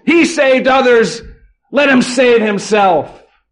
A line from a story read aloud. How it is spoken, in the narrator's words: shout out